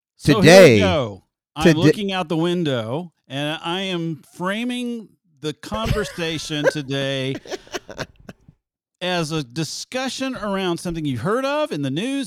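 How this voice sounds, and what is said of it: Majestic-sounding impersonation of co-host. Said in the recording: “how can I frame this in the most majestic-sounding way? So this is my impersonation of Steve.”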